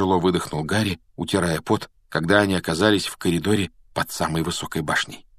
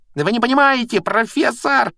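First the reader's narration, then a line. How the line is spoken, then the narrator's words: Shrieking. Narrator (Russian): визжал Малфой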